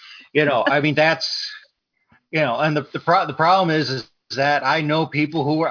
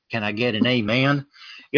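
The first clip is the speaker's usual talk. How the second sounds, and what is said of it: Put-on Southern preacher accent. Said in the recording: “when you do a stereotypical Christian, you got to have a Southern accent.”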